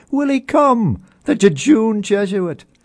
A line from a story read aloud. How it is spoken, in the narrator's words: laughing with delight, cried